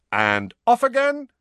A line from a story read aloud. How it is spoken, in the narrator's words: shouted George